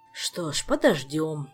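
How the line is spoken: Sigh. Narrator (Russian): вздохнул

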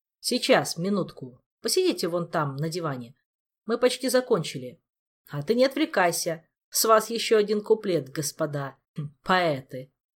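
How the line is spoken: Words through uncontrollable giggling. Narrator (Russian): Последнее слово уже с трудом пробилось сквозь безудержное хихиканье

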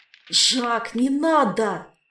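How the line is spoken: Inner moan. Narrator (Russian): мысленно простонал

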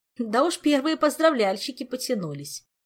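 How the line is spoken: Spiteful half-elf's giggle. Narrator (Russian): Хихикнул вредный полуэльф

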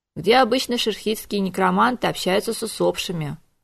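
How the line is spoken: Grumbling. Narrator (Russian): проворчал мэтр

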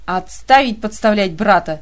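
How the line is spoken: Mother barking. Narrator (Russian): рявкнула мама

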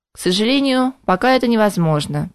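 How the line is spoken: Said sadly. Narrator (Russian): печально поведал мэтр Вельмир

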